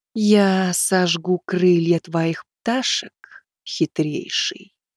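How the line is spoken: Slow deliberate. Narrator (Russian): медленно проговорила палач

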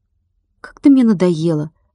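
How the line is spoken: Sighing. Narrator (Russian): вздохнул Владик

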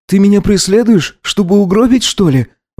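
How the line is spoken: Breathed out with contempt, hatred. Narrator (Russian): Выдохнул он, посмотрев на него с недоумением, презрением и четкой ненавистью

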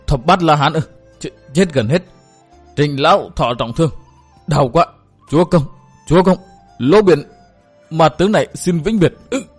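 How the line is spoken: Terrified stammering. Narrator (Vietnamese): Vẻ kinh hoàng lại hiện ra nơi ánh mắt, Lỗ Biển lắp bắp

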